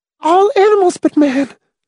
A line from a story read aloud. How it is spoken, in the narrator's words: Miss Rice gasped breathlessly